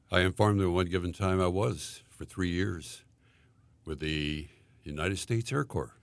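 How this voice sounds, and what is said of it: Great radio-style voice. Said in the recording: “his great radio voice ... See, there's that voice ... with a voice like that, you ought to be in radio”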